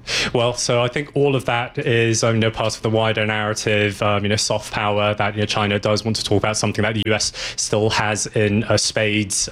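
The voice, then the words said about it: British accent. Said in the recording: “Where'd you get your British accent?”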